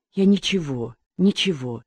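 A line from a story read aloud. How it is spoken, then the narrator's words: Whispered reply. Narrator (Russian): шептал в ответ Валентин Олегович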